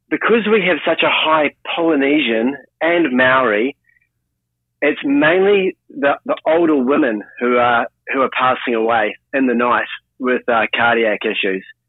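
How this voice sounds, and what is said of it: Thick New Zealand accent. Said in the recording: “I'm a Kiwi, I have a very thick, disruptive accent”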